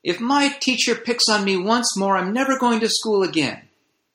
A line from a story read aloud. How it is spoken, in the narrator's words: Rupinder exclaims to his mother